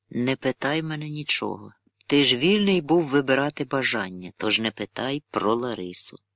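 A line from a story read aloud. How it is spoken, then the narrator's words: Quiet voice. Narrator (Ukrainian): тихо сказав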